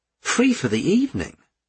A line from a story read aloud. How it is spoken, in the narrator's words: gasped André